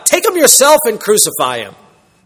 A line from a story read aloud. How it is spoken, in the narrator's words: Pilate blurts out